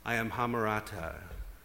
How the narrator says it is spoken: said Golem

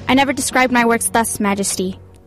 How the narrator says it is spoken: Gelt objected, as evenly as he could

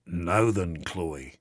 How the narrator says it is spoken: in a deeper, more rumbling voice than he usually used

